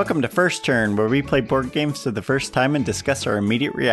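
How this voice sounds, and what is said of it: Usual voice. Nothing is said of it.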